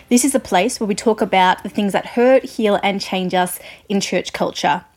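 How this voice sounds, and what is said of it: Australian accent. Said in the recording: “I'm an Australian music journalist, if you couldn't guess by my accent.”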